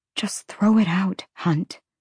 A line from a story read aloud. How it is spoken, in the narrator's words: she whispered again